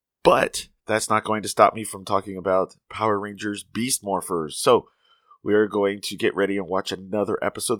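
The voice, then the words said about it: Sick, slightly funny-sounding voice. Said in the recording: “I have the mid-autumn crud, so my voice is a little funny.”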